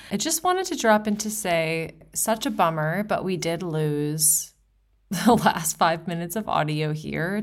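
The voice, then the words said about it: Speaking with heavy vocal fry. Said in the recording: “your vocal fry queen”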